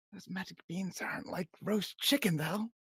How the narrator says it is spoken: Rena's gonna whisper back

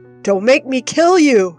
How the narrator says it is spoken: yells

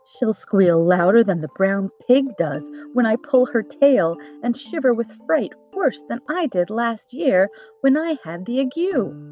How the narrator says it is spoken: Tip said to himself with a laugh

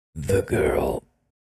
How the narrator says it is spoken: creaked out, my voice hoarse

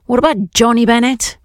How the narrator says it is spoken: shout after him

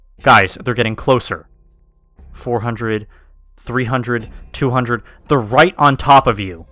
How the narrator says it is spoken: He started shouting

